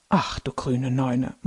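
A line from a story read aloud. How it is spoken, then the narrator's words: Shocked grandfather murmuring. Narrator (German): murmelt Opa schockiert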